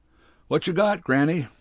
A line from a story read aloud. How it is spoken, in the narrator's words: a man hollered